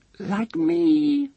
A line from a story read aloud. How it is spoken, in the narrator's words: squeaked the three-year-old